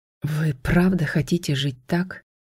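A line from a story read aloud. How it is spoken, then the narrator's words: Hoarse question. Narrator (Russian): хриплым голосом спросил отец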